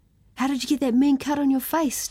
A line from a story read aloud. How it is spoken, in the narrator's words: Timothy asked excitedly